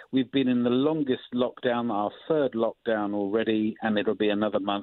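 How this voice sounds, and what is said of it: Tired, fatigued-sounding voice. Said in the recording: “you can probably tell in my voice that some of us are feeling a bit mentally fatigued”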